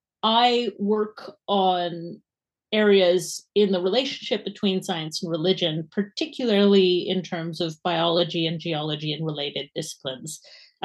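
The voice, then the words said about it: Canadian accent. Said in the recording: “my accent is unfortunately not Scottish ... but it is Canadian.”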